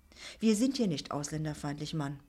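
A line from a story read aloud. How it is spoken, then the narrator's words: Quiet. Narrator (German): sagte er leise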